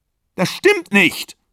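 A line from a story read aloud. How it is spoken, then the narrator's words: Screaming. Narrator (German): schrie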